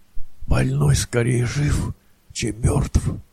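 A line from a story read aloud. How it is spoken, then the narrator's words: Whispered. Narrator (Russian): прошептал Максимов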